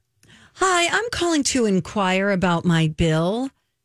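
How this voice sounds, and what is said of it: Polite customer-service phone voice. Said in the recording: “phone voice”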